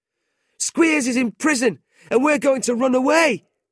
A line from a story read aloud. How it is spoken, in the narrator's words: they shouted back